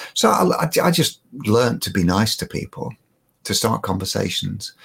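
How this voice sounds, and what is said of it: Usual voice. Nothing is said of it.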